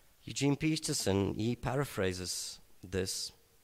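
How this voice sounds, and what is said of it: Usual voice. Nothing is said of it.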